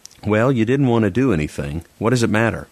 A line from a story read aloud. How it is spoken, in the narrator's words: His voice was bitter